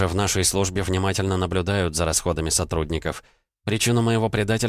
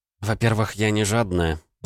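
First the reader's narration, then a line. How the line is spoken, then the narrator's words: Grumbling. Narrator (Russian): проворчала Элли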